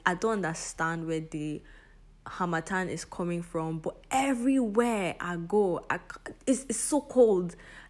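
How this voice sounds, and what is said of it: Voice sounds different from a cold. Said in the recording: “my voice sounds a bit different today. It is because I have a cold.”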